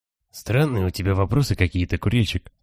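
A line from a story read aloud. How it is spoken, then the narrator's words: Whispered. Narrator (Russian): говорит он шепотом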